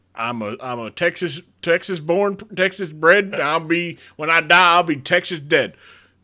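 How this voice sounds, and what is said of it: Put-on Texan accent. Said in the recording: “The hell did you get that accent?”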